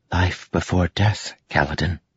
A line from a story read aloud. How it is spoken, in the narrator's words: she whispered